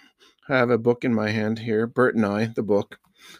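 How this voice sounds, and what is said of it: Usual voice. Nothing is said of it.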